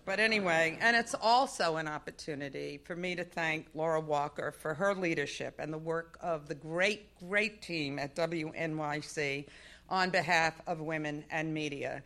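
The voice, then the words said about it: Accent that sounds Southern. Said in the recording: “with this accent you thought I was from the South, right? ... All the speech lessons, they just didn't work.”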